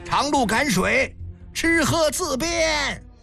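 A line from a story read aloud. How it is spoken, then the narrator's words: Repeated calling out. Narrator (Chinese): 丽媛军士沿途不断呼喊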